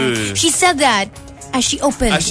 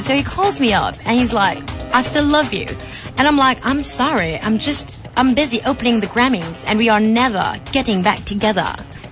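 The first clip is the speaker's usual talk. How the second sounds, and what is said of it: Exaggerated, awful put-on English accent. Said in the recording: “exaggerated English accent ... I have an awful English accent”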